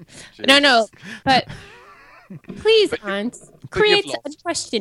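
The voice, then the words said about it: Fake British accent. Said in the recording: “listen to her voice... she's giving me a bullshit British accent”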